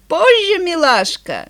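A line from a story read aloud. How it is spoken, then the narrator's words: Laughing. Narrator (Russian): Тони засмеялся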